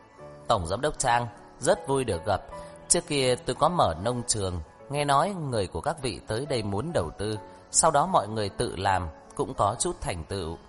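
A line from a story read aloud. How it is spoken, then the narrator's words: Hearty laugh. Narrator (Vietnamese): cười lớn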